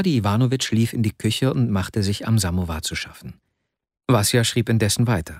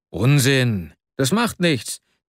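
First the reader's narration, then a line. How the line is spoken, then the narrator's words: Called out. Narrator (German): rief Arkadi Iwanowitsch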